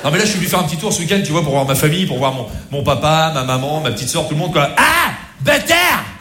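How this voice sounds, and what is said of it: Put-on Rouen regional accent. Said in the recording (French): “mon pote, de l'accent de Rouen”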